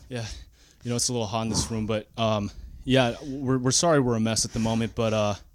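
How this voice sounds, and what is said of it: Out of breath. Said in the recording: “I'm a little out of breath right now. We had to run up the stairs”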